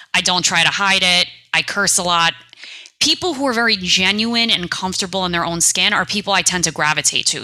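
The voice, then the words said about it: Thick New York accent. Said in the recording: “I have a very thick New York accent.”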